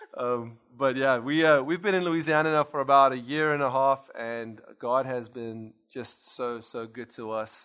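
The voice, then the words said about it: South African accent. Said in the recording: “if I sound differently to you ... we actually come from South Africa ... I've worked on my accent”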